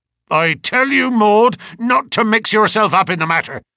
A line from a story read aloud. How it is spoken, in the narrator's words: cried her father angrily